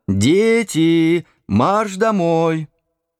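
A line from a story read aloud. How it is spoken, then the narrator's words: Shout through window. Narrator (Russian): кто-то крикнул им в форточку окна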